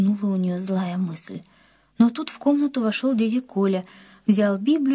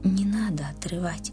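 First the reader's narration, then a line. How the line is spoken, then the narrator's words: Whisper in the ear. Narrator (Russian): словно шепнул кто-то Риме на ухо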